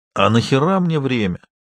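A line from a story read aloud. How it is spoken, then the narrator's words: Hoarse question. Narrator (Russian): хрипло поинтересовался в ответ он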